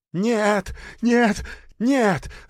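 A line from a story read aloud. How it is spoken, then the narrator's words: Shrieking. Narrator (Russian): завизжал тот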